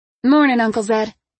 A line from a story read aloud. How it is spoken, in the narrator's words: she said cheerfully